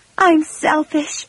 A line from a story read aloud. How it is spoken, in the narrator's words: she cried